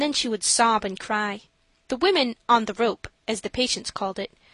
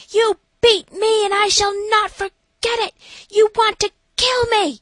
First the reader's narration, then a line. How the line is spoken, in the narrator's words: another screaming at some nurse, saying